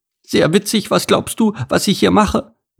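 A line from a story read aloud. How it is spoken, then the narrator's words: Small bird's squeak upward. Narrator (German): piepste die Blaumeise zu ihm empor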